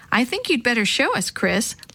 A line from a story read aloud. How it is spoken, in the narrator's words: laughed Mr